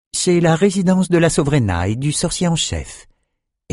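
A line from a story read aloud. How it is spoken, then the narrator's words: Weary servant explaining. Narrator (French): expliqua un domestique qui faisait penser à un soupir de lassitude ambulant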